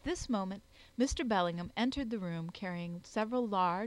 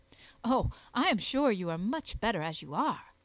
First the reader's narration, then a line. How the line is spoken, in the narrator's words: I exclaimed, with such earnestness that we both laughed